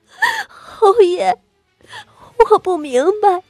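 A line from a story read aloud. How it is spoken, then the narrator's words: Pained, frightened, trembling sobs. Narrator (Chinese): 胸口的剧痛，她吓得颤抖起来，哆嗦着哭道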